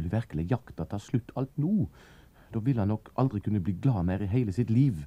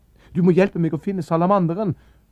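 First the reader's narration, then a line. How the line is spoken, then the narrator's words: Shouted. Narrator (Norwegian): ropte Anders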